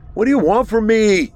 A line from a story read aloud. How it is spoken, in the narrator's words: Arthur yelled out into the storm